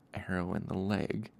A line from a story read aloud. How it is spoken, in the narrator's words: Bast asked under his breath